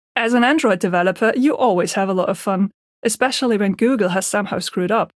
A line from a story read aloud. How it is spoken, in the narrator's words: Benny joins in and starts to laugh